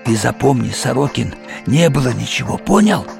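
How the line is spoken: Spluttering convulsive hiss. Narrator (Russian): судорожно, брызгая, прошипел мне в лицо

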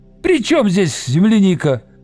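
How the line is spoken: Shouting. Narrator (Russian): закричал Виктор

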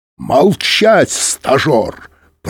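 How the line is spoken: Roar. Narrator (Russian): проревел Быков

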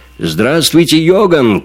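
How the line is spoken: Shout. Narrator (Russian): крикнул Эрвин

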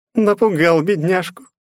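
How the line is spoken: Booming laughter. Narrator (Russian): захохотала бездна

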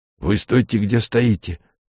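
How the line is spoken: Hoarse boy. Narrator (Russian): хрипло сказал мальчик

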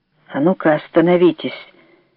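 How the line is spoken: Suddenly hoarse voice. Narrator (Russian): сказал Виктор, сразу охрипнув

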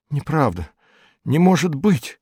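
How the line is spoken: Whisper. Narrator (Russian): прошептала

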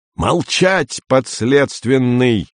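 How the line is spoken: Yell. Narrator (Russian): заорал Андрей

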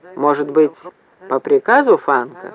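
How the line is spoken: Plain. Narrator (Russian): спросил Вепрь

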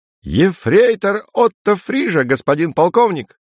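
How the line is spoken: Ecstatic squeal. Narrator (Russian): С восторгом взвизгнул Отто

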